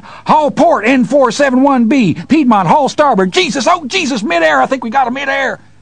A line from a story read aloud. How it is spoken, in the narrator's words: the weird static coming from the radio cleared, voice screamed